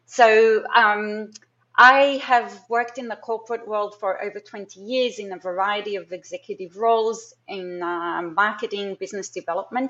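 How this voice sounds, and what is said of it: Mixed Israeli, Australian, American accent. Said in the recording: “I am Israeli, Australian, American ... what is that accent? Because I've definitely had people stare at me trying to work that out.”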